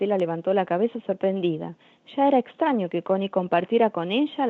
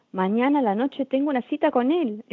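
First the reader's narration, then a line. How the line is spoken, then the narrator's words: Proud exclamation. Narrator (Spanish): exclamó con orgullo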